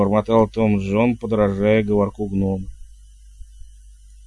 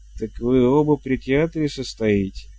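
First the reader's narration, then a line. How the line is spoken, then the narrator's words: Nearly sober jester. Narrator (Russian): почти трезвым голосом уточнил шут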